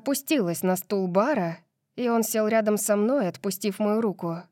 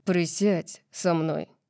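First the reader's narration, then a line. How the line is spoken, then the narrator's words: Firm tone. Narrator (Russian): сказал твердым тоном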